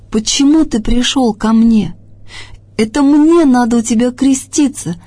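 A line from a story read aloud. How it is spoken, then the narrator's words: Excited exclamation. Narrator (Russian): воскликнул взволнованный Иоанн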